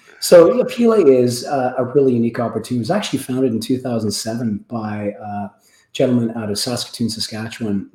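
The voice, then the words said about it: Raspy voice. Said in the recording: “You have to bear with my voice a little bit. I've got a bit of a rasp here today. So my wife says I had my sexy voice on”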